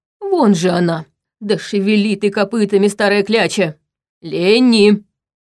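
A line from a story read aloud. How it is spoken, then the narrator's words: Deep bass echoing shout. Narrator (Russian): Басом вторил ему Витал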